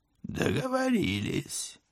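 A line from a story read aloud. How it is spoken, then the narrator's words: Hoarse, muffled behind visor. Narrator (Russian): хрипло подтвердили из-за забрала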